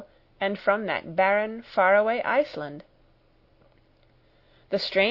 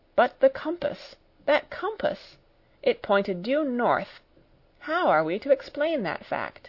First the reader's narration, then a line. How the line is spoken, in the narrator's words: my uncle murmuring